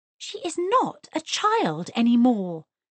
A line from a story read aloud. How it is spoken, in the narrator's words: exclaimed Mrs